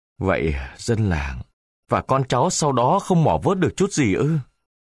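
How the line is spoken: Sighing question. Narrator (Vietnamese): Ông Sắc thở dài hỏi

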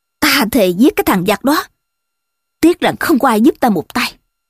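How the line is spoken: Angry. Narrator (Vietnamese): Ngô Thạc giận dữ

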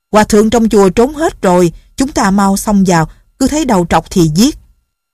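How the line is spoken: Shouting. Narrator (Vietnamese): Đào Căng Tiên la lên

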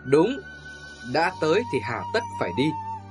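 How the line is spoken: Pensive, smiling. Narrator (Vietnamese): Người trung niên trầm ngâm và mỉm cười

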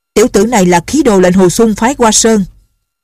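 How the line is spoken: Shouted from afar. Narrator (Vietnamese): có người ở phía đông quát

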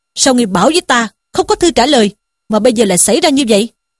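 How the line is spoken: Furious shouted question. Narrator (Vietnamese): Sử Tiến cả giận, quát hỏi Dương Tứ rằng

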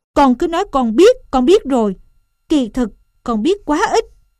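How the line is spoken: Angry scolding mother. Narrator (Vietnamese): Sẻ mẹ nóng giận quát

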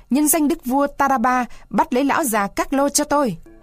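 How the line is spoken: Old man shouting. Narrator (Vietnamese): Lão hét lên

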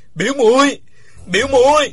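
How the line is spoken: Loud cry from ground. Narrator (Vietnamese): Uông Khiếu Phong nằm trên mặt đất gào to

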